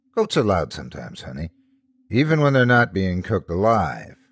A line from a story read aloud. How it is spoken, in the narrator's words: I replied, chuckling